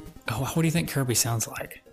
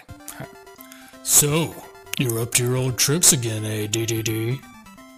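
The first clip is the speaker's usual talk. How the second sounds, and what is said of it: Deep voice as Kirby. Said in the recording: “I think he would have a deep voice.”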